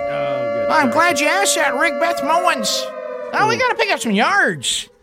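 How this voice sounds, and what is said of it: Grating impression of a sportscaster. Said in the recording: “impersonation is like fingers on a chalkboard ... That's a good impersonation ... It sounds just like Beth”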